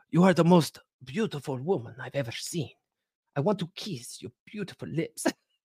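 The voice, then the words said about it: Attempted Italian accent. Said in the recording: “I'm going to try to do it in an Italian accent. I probably can't.”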